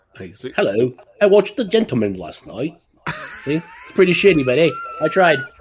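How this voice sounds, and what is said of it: Terrible put-on British accent. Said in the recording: “I used my English accent ... your British accent's better than mine. Yeah, legendary British accent. Yeah, that's terrible, legendarily terrible.”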